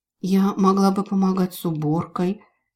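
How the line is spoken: Quiet, hopeful. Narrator (Russian): тихо, но с надеждой в голосе сказала Мираэль

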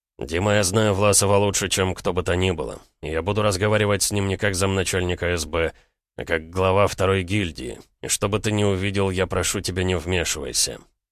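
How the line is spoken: Cold. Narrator (Russian): холодно проговорил

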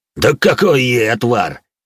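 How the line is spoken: Cheerful chuckling giant. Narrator (Russian): весело хохотнул гигант

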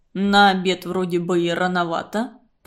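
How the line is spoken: Grumbling. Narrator (Russian): проворчал Архипыч

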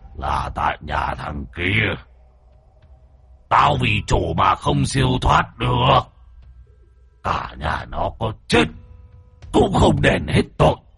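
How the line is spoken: Deep booming voice. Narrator (Vietnamese): giọng nói ồm ồm vang lên

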